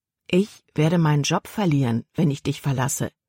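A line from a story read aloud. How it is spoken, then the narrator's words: Plain. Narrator (German): sagte Caleb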